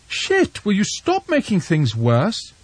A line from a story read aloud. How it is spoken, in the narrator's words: Anna said sharply